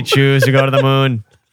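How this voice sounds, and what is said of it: Exaggerated Boston-style accent. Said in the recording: “fake Boston accent ... It's not even the Boston accent ... It's like the Kennedy accent ... And it's just so ridiculous”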